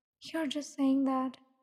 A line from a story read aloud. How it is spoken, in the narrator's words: she mumbled